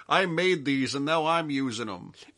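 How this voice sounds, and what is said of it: Put-on Jamaican accent. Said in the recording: “my imitation of a Jamaican”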